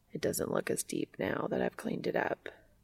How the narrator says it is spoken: Castiel murmurs

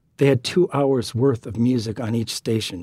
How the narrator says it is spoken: she said

